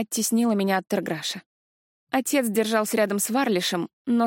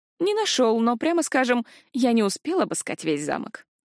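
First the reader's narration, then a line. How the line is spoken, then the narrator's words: Wry snort. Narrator (Russian): хмыкнул Ришел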